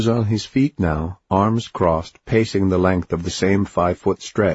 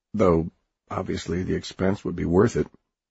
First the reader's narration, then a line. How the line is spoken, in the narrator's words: mumbling